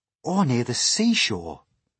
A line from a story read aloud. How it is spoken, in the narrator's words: said James eagerly